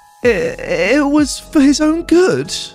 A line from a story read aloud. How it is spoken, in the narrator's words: the entitled mum whimpered